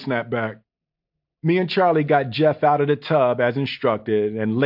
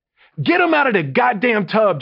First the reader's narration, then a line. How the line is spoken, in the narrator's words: JL barked